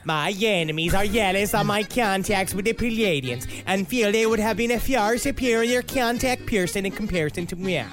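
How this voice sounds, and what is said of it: Cartoon character voice accent. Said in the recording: “You didn't go into Jamaican. You did go into Cartman, but that was a great accent.”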